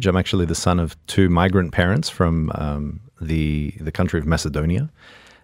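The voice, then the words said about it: Australian accent. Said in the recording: “as you can tell from the accent ... I come from Australia ... the Australian accent's probably one that I'll never lose”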